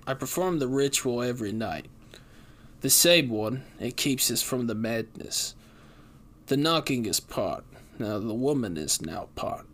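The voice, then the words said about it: Mumbled Cockney accent. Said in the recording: “His mumbled voice was coated in a Cockney accent.”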